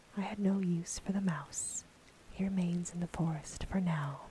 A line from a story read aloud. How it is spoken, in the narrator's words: replied the woman